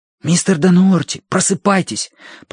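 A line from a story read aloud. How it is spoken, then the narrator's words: Whisper. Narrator (Russian): прошептал Колин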